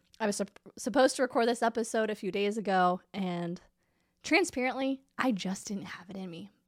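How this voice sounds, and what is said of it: Congested nasal voice from a cold. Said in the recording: “If you can't tell by my voice, I'm still recovering from this stupid cold situation. I'm a little congested. ... despite how I sound right now”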